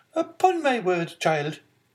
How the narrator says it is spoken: exclaimed the angry Marquise

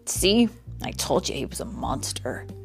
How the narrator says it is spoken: Jim muttered

